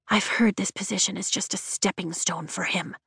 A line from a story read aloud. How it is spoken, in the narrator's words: Tara whispers